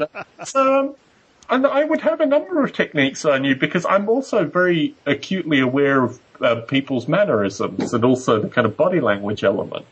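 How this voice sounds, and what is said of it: Australian accent. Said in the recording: “the accent is a good intro ... He's a fucking Aussie.”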